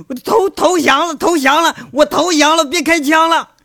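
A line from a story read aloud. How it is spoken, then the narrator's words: Kneeling, shouting surrender. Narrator (Chinese): 院子里的跪着在那喊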